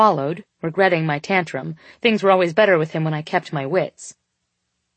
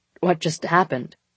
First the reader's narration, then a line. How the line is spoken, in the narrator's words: he spluttered